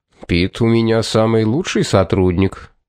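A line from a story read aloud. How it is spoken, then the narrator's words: Calm reply. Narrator (Russian): спокойно ответил Корнуолис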